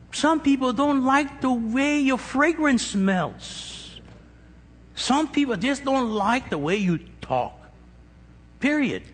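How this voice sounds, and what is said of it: Speaks with a noticeable accent. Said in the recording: “there's some people that hate my accent ... You put that accent on”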